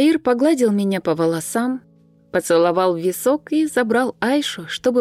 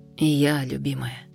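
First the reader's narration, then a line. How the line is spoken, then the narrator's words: Tearful tender whisper. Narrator (Russian): прошептал, с подозрительно блестящими глазами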